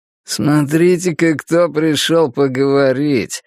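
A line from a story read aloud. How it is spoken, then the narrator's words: Smirking, through teeth. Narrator (Russian): с ухмылкой процедил он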